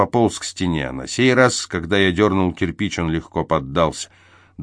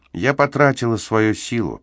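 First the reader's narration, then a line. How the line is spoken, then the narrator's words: Sad reply. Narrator (Russian): печально ответила она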